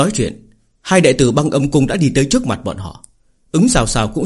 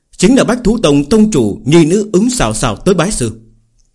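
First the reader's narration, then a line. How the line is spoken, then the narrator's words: Raised voice, elder. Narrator (Vietnamese): Mạc gia trưởng lão cất cao giọng nói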